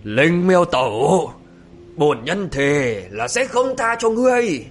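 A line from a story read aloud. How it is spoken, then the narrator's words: Hateful roar. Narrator (Vietnamese): Mộ Dung Thịnh thì thấy cơ mưu bị bại lộ, chán nản ... gã là căm hận gầm lên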